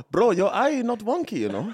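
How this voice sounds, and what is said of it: Put-on Apu-style Indian accent. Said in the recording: “accent again? Why did you turn into Apu?”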